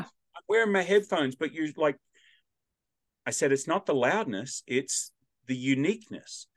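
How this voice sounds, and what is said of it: Australian accent. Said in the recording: “my accent and my volume breaks through ... this Australian accent comes ... I'm the only Australian accent around. You're going to hear me even if I'm whispering”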